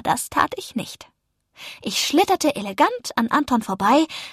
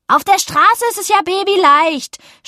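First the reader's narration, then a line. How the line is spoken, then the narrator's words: Angry shout. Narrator (German): schrie wütend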